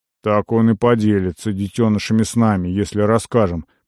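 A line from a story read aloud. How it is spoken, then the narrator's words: Dismissive snort. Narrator (Russian): пренебрежительно хмыкнул Керума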